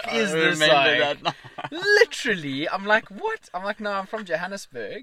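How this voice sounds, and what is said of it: Usual voice. Nothing is said of it.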